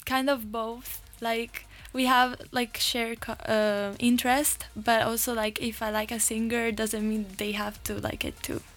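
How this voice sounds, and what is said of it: Slight Italian accent. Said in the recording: “I detect a slight bit of an accent. ... I'm from Italy.”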